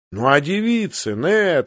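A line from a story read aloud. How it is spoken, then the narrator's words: Exclaiming. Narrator (Russian): воскликнул Роберт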